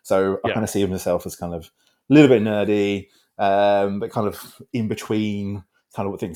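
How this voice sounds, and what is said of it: British accent. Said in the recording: “I don't know if anyone's recognized from my accent, I'm from Britain”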